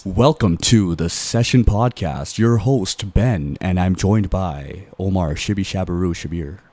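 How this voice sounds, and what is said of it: Exaggerated radio announcer voice. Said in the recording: “my radio voice ... Hit us with your radio voice.”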